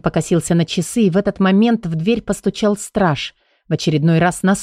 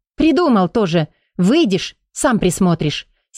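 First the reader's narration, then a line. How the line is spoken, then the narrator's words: Angry interruption. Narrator (Russian): сердито оборвала его Бенита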